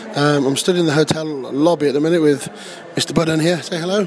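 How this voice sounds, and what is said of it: Slightly damaged, strained voice. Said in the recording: “my voice is slightly fecked”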